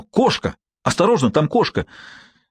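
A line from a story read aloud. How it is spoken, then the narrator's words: Agitated exclamation. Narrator (Russian): Я взволнованно воскликнул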